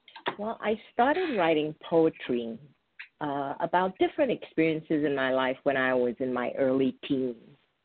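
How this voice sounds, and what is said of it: New York accent. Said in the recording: “I grew up in New York, so listening to your accent is like coming home for me.”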